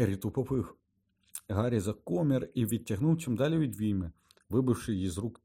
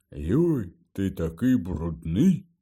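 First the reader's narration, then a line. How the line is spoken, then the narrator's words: Grumbled. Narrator (Ukrainian): буркнув Гегрід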